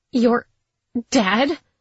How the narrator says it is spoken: I gasped with a strained voice

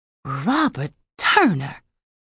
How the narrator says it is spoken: she whispered

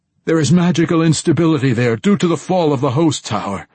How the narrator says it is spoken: Dorcray blurted

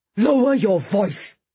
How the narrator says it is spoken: his father shouted back angrily

